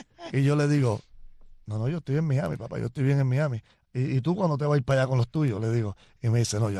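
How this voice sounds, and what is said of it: Usual voice. Nothing is said of it.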